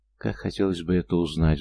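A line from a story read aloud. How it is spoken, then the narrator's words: Sighed. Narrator (Russian): вздохнул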